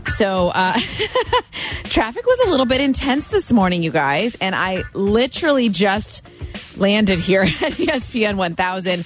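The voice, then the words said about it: Out of breath. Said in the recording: “I might sound out of breath. I kind of am.”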